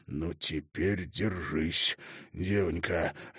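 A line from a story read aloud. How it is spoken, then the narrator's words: Hoarse, agitated wheeze. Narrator (Russian): севшим от волнения голосом просипел Бравант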